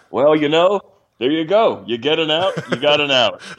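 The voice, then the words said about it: Impression of Rick Manning. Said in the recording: “great Rick Manning impression”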